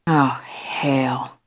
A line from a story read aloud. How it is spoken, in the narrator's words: she whispered